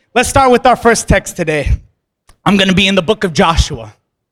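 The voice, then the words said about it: Strained, hoarse voice, dry throat. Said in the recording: “I'm already losing my voice ... My throat's getting dry.”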